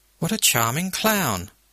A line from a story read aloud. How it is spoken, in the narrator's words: Lady Castlemaine purr